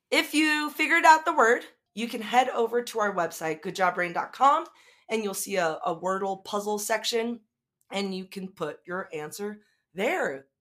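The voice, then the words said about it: Strained voice, starting to give out. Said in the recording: “my voice is starting to go away.”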